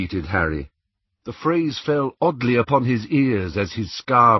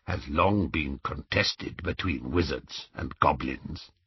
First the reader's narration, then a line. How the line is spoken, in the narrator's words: said the goblin quietly